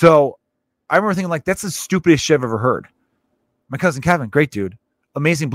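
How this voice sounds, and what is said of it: Usual voice. Nothing is said of it.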